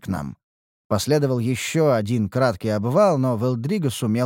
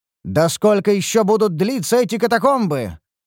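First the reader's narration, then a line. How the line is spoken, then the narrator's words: Exasperated exclamation. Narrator (Russian): воскликнул я в сердцах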